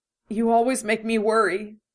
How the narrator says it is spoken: she said brokenly

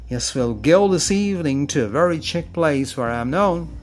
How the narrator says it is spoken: He laughed, very much amused, and responded

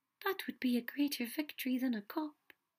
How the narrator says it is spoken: said softly

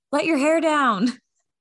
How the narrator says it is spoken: yelled

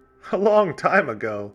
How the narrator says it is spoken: They all laughed

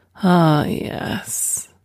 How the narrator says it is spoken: Sherry sighed

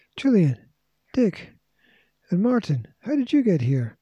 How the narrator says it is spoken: cried George

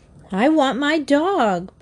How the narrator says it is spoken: Bobby wailed

